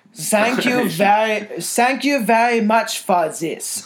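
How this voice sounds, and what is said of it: Put-on German accent. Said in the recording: “how to do a German accent”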